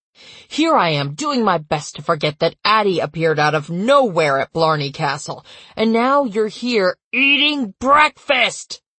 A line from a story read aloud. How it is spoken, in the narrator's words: He roared